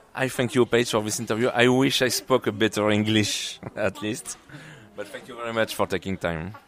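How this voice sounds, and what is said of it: Non-native English accent. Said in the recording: “your accent is what's going to keep everybody listening”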